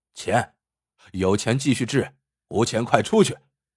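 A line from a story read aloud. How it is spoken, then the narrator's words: Cold. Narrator (Chinese): 医生 冷冷的说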